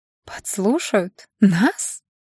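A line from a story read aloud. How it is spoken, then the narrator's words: Laughing. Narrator (Russian): Аня рассмеялась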